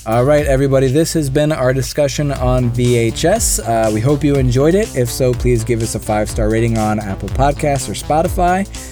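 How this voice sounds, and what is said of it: Sick, slightly strange voice. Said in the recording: “I'm a little sick, so sorry my voice was a little bit weird for this one.”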